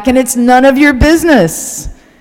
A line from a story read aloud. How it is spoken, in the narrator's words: the man bellowed back